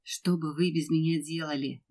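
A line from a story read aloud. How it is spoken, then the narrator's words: Good-natured grumble. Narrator (Russian): добродушно проворчал Федор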